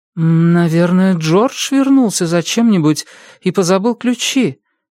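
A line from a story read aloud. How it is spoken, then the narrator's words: Uncertain. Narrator (Russian): неуверенно произнесла Мэри Дактон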